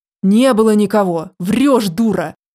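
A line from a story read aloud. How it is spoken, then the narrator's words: Young man growling. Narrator (Russian): рычал парень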